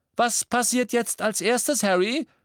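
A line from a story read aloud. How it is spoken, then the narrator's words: Shouted. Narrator (German): rief George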